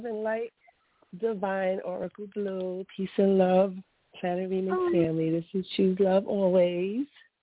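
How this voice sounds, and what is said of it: Congested, sick-sounding voice. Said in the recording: “Sorry for the voice. ... I'm trying to get over the sinus infection or whatever it is”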